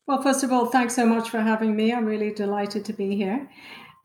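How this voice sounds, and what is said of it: Very British accent. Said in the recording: “your very British accent”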